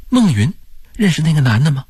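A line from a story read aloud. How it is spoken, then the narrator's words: Hurried question. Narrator (Chinese): 黄梅急忙问道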